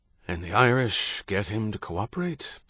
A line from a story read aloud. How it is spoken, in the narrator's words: Beckett asked, his voice weary